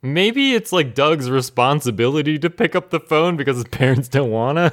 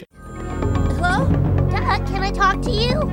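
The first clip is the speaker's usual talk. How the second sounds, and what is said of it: Little cartoon character voice. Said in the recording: “in his little Porkchop voice”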